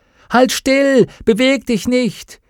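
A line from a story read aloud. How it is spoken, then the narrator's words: Called out. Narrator (German): rief Will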